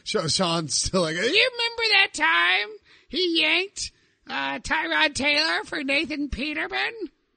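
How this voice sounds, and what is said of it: Nerdy character voice. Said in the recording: “That was my old nerd voice ... There's the voice”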